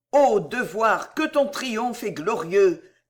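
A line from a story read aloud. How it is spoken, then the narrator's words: Exclamation. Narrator (French): s'écria Madame Delville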